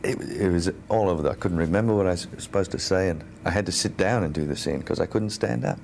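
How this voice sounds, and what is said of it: Speaks with a noticeable accent. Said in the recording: “He still had the accent. ... I never realized he actually had an accent.”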